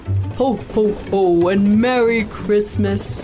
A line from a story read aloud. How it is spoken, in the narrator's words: Santa bellowed